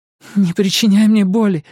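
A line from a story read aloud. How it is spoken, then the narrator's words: Pleading. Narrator (Russian): взмолилась она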